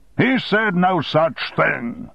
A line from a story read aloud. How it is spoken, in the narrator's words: shouted Armstrong